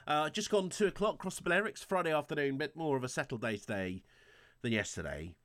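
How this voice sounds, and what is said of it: Snuffly, congested voice. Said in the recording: “I've got a bit of a cold. ... I'm a bit snuffly today.”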